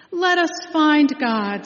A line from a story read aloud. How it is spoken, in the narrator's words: someone shouted